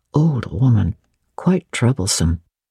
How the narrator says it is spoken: said something to him in a low voice

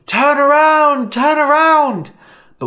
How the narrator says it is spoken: You scream

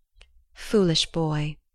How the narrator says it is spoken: she said softly, then lowering her voice to a whisper

